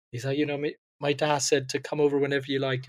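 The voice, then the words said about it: Put-on Northern Irish accent. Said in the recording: “this is my Northern Irish accent.”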